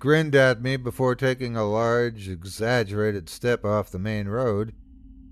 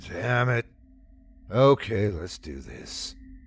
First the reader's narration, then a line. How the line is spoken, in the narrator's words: I groaned and said